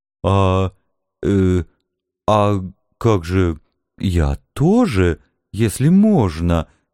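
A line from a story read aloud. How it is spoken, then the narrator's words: Timid babbling. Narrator (Russian): начала робко лепетать драконица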